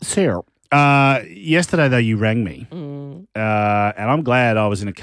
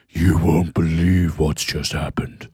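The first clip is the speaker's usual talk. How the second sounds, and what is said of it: Deep drag queen voice. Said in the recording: “she does it with this deep voice. You know, it's her drag queen voice. She puts on”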